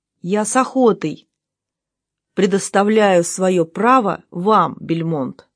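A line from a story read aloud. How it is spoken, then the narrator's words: Plain. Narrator (Russian): сказал Кохран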